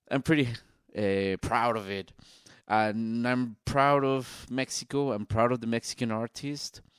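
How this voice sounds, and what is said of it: Strong Mexican accent in English. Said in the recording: “my accent ... a Mexican accent, a really, really strong Mexican artist accent”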